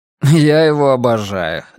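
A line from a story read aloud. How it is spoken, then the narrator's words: Laughing. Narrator (Russian): рассмеялся Рекс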